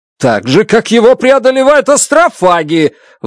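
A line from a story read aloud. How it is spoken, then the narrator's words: Shouted. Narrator (Russian): выкрикнул я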